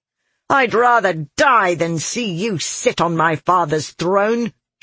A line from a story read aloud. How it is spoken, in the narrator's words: she snarled